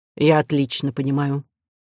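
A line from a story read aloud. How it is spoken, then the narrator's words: Dry reply. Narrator (Russian): сухо ответил Мелодар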